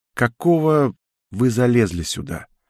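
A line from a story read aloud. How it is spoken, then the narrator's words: Tired question. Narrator (Russian): устало спросила девушка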